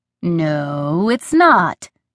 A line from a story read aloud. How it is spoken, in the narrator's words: he said slowly, as if talking to a 3-year-old